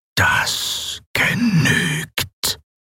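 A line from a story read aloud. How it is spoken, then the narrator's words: Mechanical whisper. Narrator (German): flüsterte die maschinelle Stimme Sylravans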